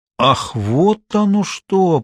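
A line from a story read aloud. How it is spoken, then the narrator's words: Drawn-out drawl. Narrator (Russian): протянул Кричко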